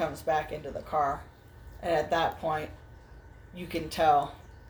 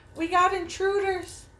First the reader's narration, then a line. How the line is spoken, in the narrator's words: he yells out